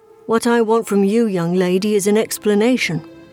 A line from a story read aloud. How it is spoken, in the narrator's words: I answered flatly